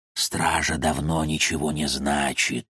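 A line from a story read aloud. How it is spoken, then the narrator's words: Whispering shadows. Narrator (Russian): шептали тени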